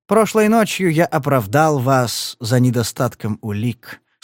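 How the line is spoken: Calm. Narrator (Russian): спокойно проговорил он

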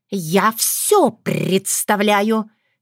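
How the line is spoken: Angry. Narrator (Russian): сердито сощурилась Крылана

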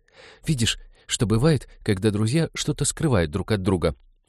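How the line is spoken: Quiet calm voice. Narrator (Russian): Ивета говорила тихим, спокойным голосом

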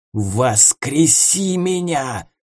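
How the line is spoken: Hissing raven. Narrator (Russian): зашипел ворон

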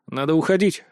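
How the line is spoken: Plain. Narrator (Russian): сказал я

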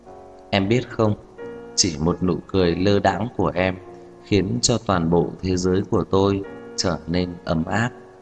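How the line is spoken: Drunken, low seductive murmur. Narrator (Vietnamese): Thanh âm mang theo vài phần men say, vài phần trầm thấp mê hoặc, lẩm bẩm

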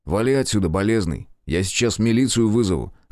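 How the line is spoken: Plain. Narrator (Russian): сказал

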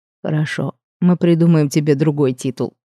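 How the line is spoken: Grumbling dragon. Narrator (Russian): проворчал этот драконище

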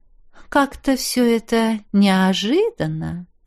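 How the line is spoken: Deliberate drawl. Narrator (Russian): Протянула нарочито, растягивая гласные ее светлость

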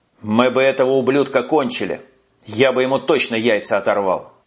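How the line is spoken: Displeased grumble. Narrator (Russian): недовольно пробурчал Уманец

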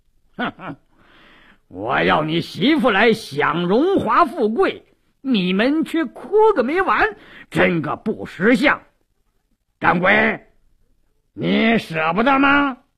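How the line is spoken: Sneering. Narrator (Chinese): 鲁斋郎冷笑一声

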